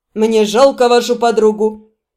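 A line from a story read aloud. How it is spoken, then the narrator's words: Sigh of feigned regret. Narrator (Russian): Джайсон с притворным сожалением вздохнул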